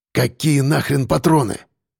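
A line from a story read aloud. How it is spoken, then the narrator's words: Hoarse rasp. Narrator (Russian): прохрипел я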